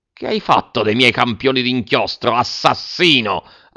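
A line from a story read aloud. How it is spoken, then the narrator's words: Shouted. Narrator (Italian): ha gridato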